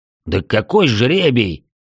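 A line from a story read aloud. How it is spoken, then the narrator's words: Barked. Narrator (Russian): рявкнул рыжебородый дварф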